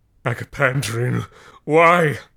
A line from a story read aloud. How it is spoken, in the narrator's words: howled